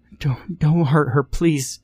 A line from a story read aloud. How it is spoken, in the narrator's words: she gasped